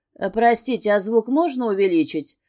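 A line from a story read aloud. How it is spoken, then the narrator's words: Calm, casual request. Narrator (Russian): Спокойно, словно на экране не происходит ничего особенного, просит Числав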